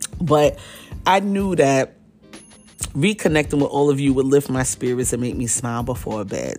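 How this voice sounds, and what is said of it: Tired, fading voice. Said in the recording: “mama is tired ... I'm even more tired ... my voice is going again”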